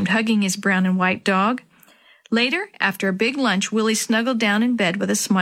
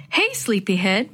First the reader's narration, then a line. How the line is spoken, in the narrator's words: Mom said cheerfully